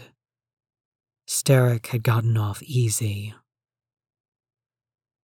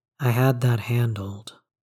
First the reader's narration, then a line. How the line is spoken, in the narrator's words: he says